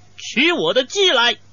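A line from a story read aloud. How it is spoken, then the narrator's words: Calling out. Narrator (Chinese): 向随从叫道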